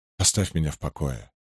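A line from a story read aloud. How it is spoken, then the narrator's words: Mutter. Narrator (Russian): буркнул Мати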